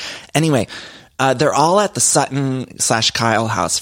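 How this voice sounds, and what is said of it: Usual voice. Nothing is said of it.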